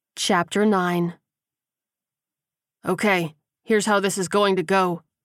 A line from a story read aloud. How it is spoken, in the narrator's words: Zion said firmly